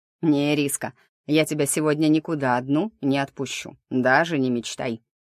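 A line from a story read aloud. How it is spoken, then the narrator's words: Chuckling. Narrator (Russian): хохотнул он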